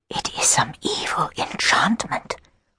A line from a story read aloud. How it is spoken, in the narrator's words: whispered the queen